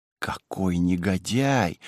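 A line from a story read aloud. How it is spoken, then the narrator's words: Frightened mutter. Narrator (Russian): пробормотала совершенно испуганная госпожа Ликер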